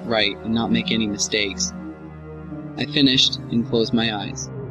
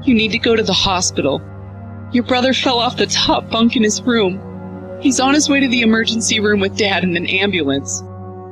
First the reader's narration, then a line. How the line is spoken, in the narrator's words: my mother said as sobs broke through her voice